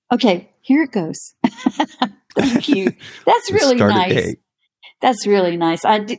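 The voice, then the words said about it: Pleasant regional accent. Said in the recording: “I love your accent and your voice. I could listen to you read Wikipedia to me.”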